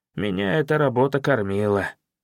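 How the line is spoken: Dejected. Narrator (Russian): уныло сказал он

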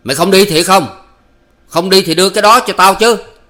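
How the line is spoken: Shouting. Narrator (Vietnamese): hắn lại quát

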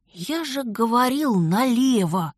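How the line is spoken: Triumphant whisper. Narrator (Russian): торжествующе шепнул Дар

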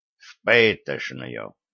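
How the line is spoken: Angry guilty mutter. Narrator (Russian): сердито буркнул Гордон, стрельнув виноватыми глазами на Виталика

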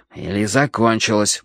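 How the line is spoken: Grumbled. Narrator (Russian): буркнул я

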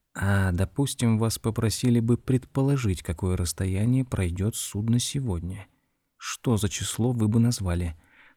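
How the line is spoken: Whispered question. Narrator (Russian): шепотом спросил мистер Боттибол

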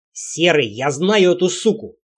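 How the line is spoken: Barking. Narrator (Russian): рявкнул Лексио

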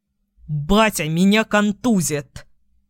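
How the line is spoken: Displeased young man's growl. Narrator (Russian): рыкнул недовольно парень

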